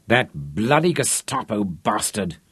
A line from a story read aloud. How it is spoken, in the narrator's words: Rod snarled